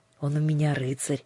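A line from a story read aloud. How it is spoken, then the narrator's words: Affectionate. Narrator (Russian): ласково сказал Андреус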